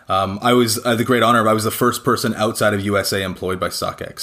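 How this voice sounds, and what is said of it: Canadian English accent. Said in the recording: “As you can tell by my accent, I'm not from the UK. I'm not from Europe. I'm actually from Canada originally.”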